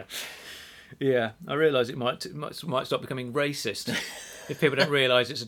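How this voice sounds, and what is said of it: Usual voice. Nothing is said of it.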